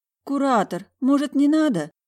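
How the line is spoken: Regretful pleading. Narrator (Russian): Взмолилась я, проклиная свой длинный язык

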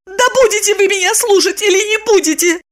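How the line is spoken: Angry shout. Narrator (Russian): гневно закричала она

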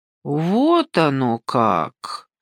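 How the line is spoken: Drawn-out drawl. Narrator (Russian): протянула Ася

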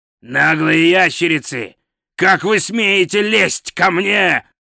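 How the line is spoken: Growled. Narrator (Russian): прорычал

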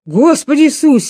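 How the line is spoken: Shouting. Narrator (Russian): сказал, вернее, закричал в третий раз Шимик

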